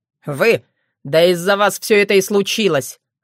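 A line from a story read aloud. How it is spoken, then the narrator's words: Growl. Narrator (Russian): рыкнул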